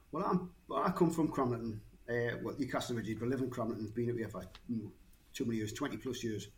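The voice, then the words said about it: Slight regional English accent. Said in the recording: “you've got a bit of an accent”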